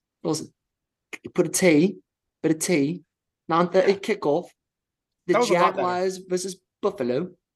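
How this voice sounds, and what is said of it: Put-on London British accent. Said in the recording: “We're going back to London. Do you want to try your accent again? ... Good job. You got the Aussie out of your head there.”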